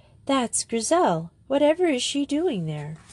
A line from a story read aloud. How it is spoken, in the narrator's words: she cried